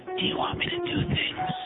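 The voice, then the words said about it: Whispering voice. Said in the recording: “Stop whispering. ... Stop whispering. I can't hear you.”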